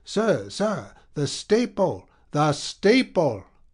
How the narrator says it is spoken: he cried

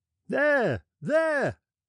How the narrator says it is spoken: shouted the sailors

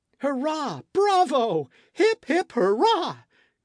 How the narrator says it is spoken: cried Michel

